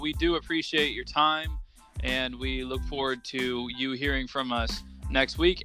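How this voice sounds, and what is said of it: Put-on radio announcer voice. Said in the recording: “I like to do this radio voice because McCarty hates it.”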